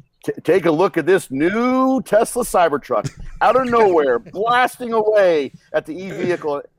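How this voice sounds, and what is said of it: Over-the-top announcer voice. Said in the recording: “do his best impression ... over the top, like announcer type voice thing”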